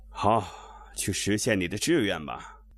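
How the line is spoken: Sighing. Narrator (Chinese): 茶派叹了一声

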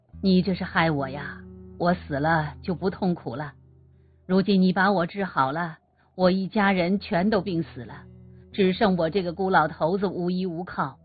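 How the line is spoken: Old man, sighing. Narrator (Chinese): 老头叹口气说

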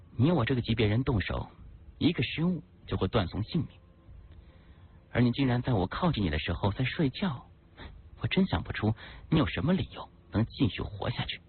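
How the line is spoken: Cold. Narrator (Chinese): 林青冷冷说道

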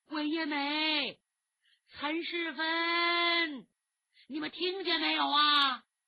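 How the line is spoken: Loud calling. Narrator (Chinese): 他大声呼叫学生名字

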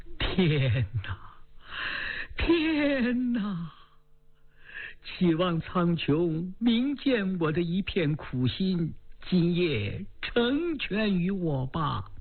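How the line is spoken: Tearful lament. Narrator (Chinese): 仰望苍天哭诉道

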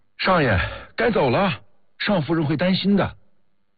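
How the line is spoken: Shouting. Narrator (Chinese): 孙尚义冲高鹏举喊

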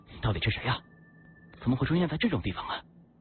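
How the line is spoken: Panting question. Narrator (Chinese): 我大口喘着粗气，忍不住就问他

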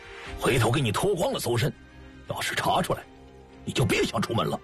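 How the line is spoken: Stern harsh voice. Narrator (Chinese): 游天笑厉声说

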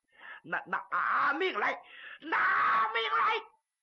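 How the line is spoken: Shouting while fighting. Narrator (Chinese): 一边打着，朱木英一边喊

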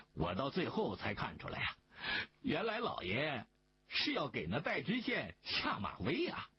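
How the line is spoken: Laughing. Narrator (Chinese): 大顺也在一旁笑着说

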